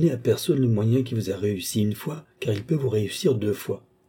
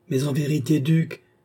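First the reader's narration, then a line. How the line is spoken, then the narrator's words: Exclaimed. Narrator (French): s'écria Madame du Barry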